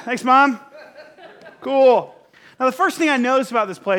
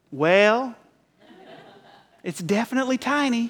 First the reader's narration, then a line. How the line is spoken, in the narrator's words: she goes, in her deep southern accent